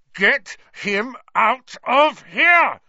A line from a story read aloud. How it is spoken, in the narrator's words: Ron bellowed